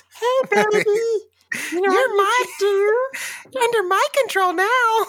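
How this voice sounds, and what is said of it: Elmo-like Muppet character voice. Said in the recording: “Is that what Elmo sounds like? ... We do this voice because it hypnotizes babies”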